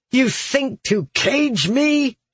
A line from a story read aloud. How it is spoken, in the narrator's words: snarled